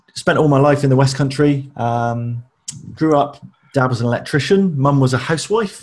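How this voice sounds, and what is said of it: West Country accent, piratey lilt. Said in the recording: “You could probably tell from the accent that I'm not from the home counties. I'm not a BBC trained journalist. There was a little bit of a piratey lilt to the accent”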